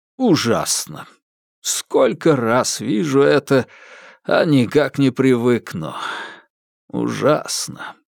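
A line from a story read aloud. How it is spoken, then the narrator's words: Sigh. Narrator (Russian): вздохнул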